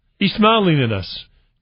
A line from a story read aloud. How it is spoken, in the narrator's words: Joseph exclaimed